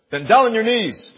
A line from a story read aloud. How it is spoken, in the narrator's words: thundered the officer